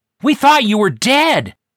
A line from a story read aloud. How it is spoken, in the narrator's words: I hollered through the mask